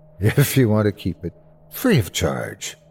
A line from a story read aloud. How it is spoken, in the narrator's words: laughed